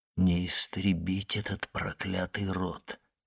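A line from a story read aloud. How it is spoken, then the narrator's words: Whisper. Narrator (Russian): прошептал он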